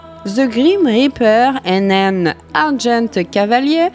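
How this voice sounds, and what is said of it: English words with poor French accent. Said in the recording (French): “toujours aussi pourri mon accent, je vous l'accorde”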